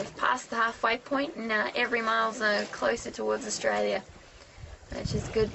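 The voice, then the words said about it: Queensland Australian accent. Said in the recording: “You can definitely hear the Queensland in your voice there”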